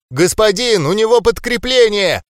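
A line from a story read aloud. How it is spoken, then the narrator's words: Yelling female gnome. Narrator (Russian): заорала какая-то гномиха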